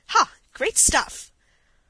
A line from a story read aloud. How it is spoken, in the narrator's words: exclaimed aloud as if involuntarily